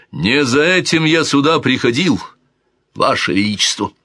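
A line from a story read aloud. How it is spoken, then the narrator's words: Shout without turning. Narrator (Russian): Дон Гонсало де Гусман, не оборачиваясь, крикнул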